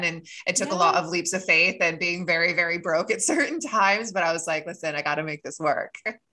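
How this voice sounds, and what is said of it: Faint English accent in American speech. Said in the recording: “you have an English accent. Unless I'm imagining it. ... It comes through sometimes. ... my accent is kind of like morphed into a million different ways. ... I can kind of hear it in certain words.”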